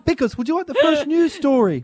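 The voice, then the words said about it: High-pitched put-on Kiwi accent. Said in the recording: “Why does speaking in a Kiwi accent mean you speak right up about five octaves?”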